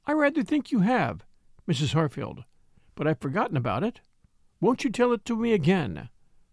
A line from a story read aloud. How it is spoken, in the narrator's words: composedly, kindly, Catherine would reply